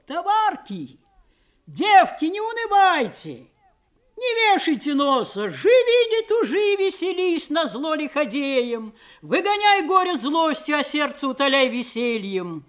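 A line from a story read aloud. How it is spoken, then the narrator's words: Loud shouting. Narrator (Russian): такие, как Просковея, кричали на весь плот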